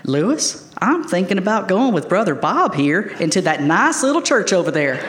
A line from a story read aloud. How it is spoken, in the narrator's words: in my best country tone, I said